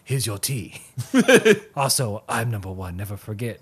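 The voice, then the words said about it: Put-on ninja-style accent. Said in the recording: “let me go back to that accent ... Ninja voice is not the real voice.”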